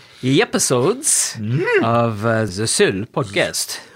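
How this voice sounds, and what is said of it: Speaks in a put-on accent. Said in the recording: “I don't know why I'm speaking like an accent”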